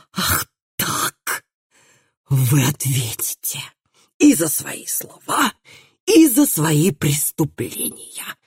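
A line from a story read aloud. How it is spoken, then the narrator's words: Growling. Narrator (Russian): Наконец прорычал он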